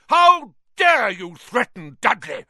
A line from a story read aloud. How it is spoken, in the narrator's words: roared Uncle Vernon